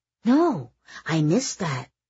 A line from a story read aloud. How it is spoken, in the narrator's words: Kitty said excitedly